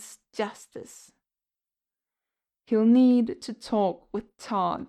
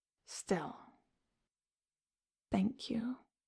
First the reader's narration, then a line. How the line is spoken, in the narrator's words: he murmurs